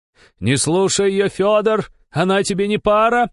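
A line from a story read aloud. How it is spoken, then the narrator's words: Older woman yelling. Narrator (Russian): орала другая постарше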